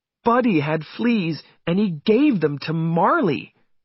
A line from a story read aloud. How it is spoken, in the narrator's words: said Jenny angrily